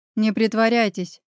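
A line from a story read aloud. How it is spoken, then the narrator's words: Unrestrained growl. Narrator (Russian): несдержанно рыкнул Павел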